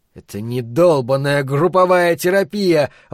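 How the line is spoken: Exclaim. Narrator (Russian): воскликнул он

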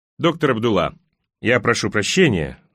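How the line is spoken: Authoritative tone. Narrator (Russian): начал он авторитетным тоном

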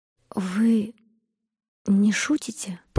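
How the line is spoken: Whispered. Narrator (Russian): прошептала она

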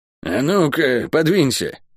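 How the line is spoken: Grumbled. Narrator (Russian): буркнула подоспевшая проклятая

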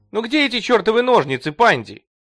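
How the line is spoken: Shouting from another room. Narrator (Russian): кричала Персефона из кухни

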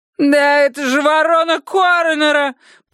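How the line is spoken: Piercing shriek. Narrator (Russian): пронзительно завизжала дама

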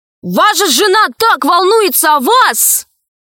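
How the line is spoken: Shouting. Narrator (Russian): крикнул Пашка Хрусту

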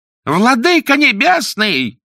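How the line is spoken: Shouting. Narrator (Russian): закричал судья

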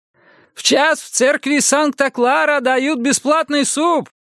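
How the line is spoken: Shouting after someone. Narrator (Russian): крикнул иранец ему вдогонку

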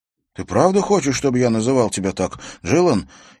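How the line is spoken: Hurried, flustered correction. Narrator (Russian): торопливо поправился, придя в полнейшее замешательство

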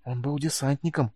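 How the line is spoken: Worried whisper. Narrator (Russian): обеспокоенно прошептал Сьюгар

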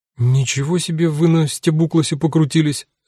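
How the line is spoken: Bewildered. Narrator (Russian): растерянно сказала Люся

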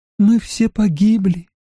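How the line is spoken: Sad. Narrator (Russian): печально сказала она

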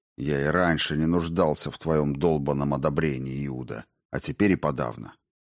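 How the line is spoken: Quiet, private. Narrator (Russian): тихо, чтобы не слышали другие, сказал

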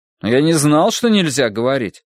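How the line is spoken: Hurt, offended. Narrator (Russian): обиженно сказал Пем

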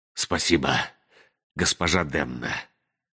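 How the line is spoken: Breathless mumble. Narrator (Russian): задыхаясь, пробормотал Ричард

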